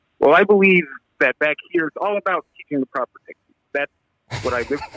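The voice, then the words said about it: Obama-like formal job-interview voice. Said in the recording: “put on your Obama voice ... let's do job interview voice”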